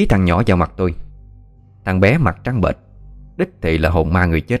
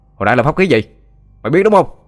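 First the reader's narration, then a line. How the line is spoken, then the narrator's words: Shouting. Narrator (Vietnamese): Xin quát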